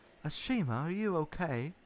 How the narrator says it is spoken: Thomas asked quietly in concern

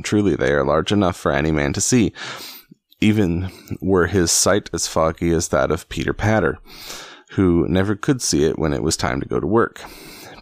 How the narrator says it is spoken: quoth Robin, laughing

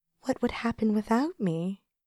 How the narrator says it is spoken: seemed to be whispering in my ear

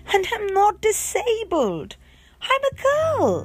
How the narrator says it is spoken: Coy wailed

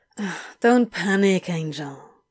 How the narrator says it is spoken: he sighed

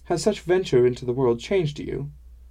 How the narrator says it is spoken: Kalka laughed

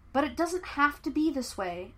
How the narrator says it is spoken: Aang pleaded

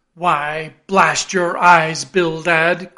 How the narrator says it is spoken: cried Peleg

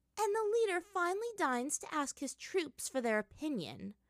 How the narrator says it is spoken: Azula said, sighing with only a tinge of melodrama

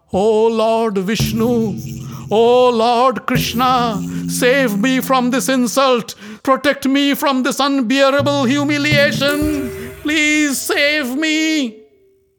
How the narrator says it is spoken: she cried out

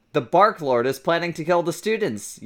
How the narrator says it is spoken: yelled Cornelia Fudge

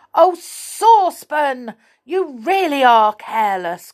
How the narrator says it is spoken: cried Moonface angrily

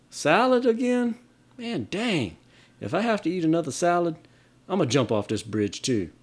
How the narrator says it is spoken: The Florida student exclaims

